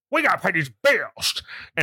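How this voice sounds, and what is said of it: Imitates another person's voice, toothless. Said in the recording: “was your Lacey Chabert ... That was my impression? ... Toothless Lacey Chabert.”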